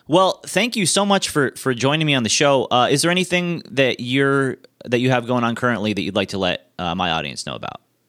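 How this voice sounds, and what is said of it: English accent. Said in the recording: “this awesome English accent”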